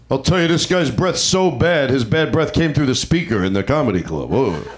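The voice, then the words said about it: Imitates another person's voice. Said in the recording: “Was that your Mitch Hedberg impression?”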